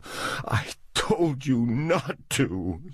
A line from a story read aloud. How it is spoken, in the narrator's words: she cried